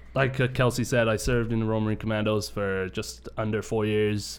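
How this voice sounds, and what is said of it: British accent. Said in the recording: “I'm from the UK, in case my accent doesn't give it away.”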